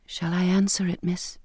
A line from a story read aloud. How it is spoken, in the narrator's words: Bridget whispered